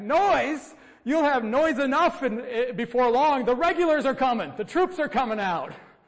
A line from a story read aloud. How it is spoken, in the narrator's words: Paul Revere shouts back